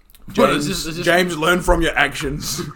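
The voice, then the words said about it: Imitates another person's voice. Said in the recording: “That was an impression of James.”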